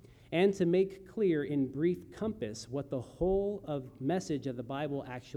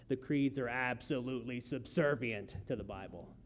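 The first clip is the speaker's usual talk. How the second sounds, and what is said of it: Growling impression of John Gerstner. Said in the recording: “recognize the way he talks with his growl, some of that growl picked up, adopted by R.C. Sproul himself ... how well I did in my impersonation of him”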